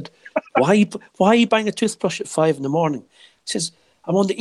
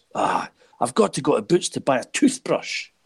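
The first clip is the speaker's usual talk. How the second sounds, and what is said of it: Imitates another person's voice, badly. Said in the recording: “that's a very bad impersonation of what was”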